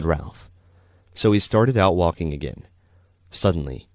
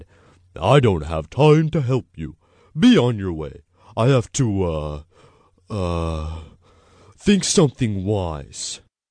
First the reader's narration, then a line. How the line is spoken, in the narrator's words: The owl gruffly said